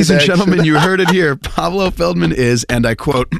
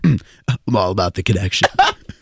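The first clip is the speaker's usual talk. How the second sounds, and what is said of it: Imitates another person's voice. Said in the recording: “that was good impersonation”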